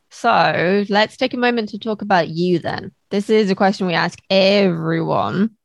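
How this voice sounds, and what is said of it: Hoarse voice. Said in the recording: “I've gone really hoarse all of a sudden.”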